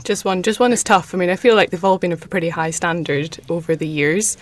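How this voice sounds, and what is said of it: Scottish accent, slight twang. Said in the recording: “I hear a little something when you speak... A twang... A little twang... The twang is from Scotland”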